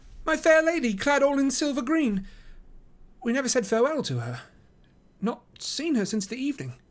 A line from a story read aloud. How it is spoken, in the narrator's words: cried